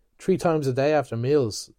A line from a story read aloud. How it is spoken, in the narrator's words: Stephen said dryly